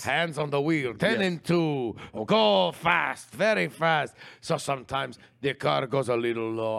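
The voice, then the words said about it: Put-on accent drifting Middle Eastern. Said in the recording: “This accent is slipping. ... becoming a little bit more Middle Eastern.”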